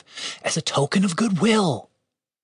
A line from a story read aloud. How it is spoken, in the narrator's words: Julian whispered to Dave